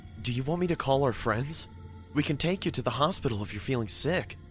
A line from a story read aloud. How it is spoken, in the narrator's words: I said in a worried voice